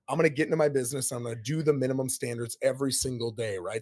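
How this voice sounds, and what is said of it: Hoarse, failing voice. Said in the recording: “my voice is out. I've had this now for about 3-4 weeks. Can't get rid of it ... I don't care if I'm sick”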